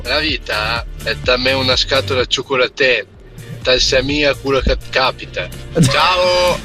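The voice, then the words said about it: Northern Italian dialect, Piedmontese-sounding. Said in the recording (Italian): “Che provenienza aveva però questo dialetto? ... Sembrava milanese, ... forse Piemonte ... Sì, forse più Piemonte. ... quando c'hanno quelle finali lì ... un po' francesi”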